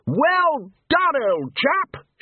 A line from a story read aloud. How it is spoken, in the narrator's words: shouted Ridcully across the water